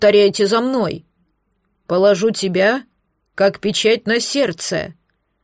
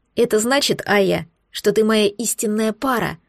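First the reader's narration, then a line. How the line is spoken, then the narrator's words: Quiet young man. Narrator (Russian): тихо произнес юноша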